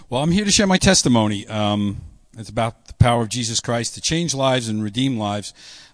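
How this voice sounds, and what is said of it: New York accent. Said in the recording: “Be tolerant of my New York accent, please. I'll try to hide it as much as I can.”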